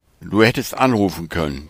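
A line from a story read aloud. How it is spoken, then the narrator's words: Plain. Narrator (German): sagte Leon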